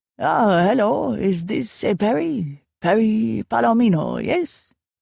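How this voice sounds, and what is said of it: High-pitched, ridiculous accented man's voice. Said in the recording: “a man said in a high-pitched accent that was borderline ridiculous”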